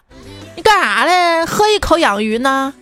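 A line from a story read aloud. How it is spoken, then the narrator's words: Jeering shout. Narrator (Chinese): 有个损犊子在旁边喊着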